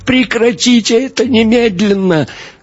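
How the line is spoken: Wailing. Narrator (Russian): Мария взвыла

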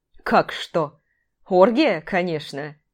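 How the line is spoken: Laughing. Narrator (Russian): Алексей Сергеевич рассмеялся

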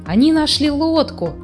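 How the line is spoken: Exclaiming. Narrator (Russian): воскликнул Снус-Мумрик

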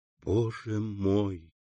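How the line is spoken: Whisper. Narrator (Russian): прошептала Валентина

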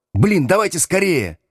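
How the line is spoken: Yelling. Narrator (Russian): завопил Слушкин

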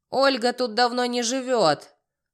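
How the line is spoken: Smoky-voiced woman barking. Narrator (Russian): Прокуренным голосом гаркнула женщина

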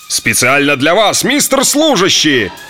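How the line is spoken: Roaring, howling, thundering. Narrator (Russian): Заорало, завыло, загрохотало

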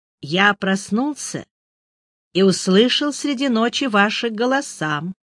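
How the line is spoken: Calm, after a pause. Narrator (Russian): помолчав, спокойно сказал Андерсон

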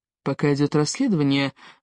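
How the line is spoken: Soft. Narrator (Russian): мягко сказал Риф

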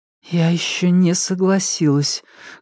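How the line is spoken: Muffled, hollow reply. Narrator (Russian): глухо ответила она

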